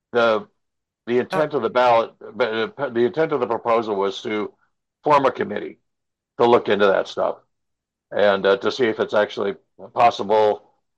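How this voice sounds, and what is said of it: Strained, failing voice. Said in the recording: “I'm losing my voice,”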